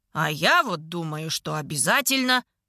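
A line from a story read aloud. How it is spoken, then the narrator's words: Smirking objection. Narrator (Russian): возражает Мелис, резко ухмыляясь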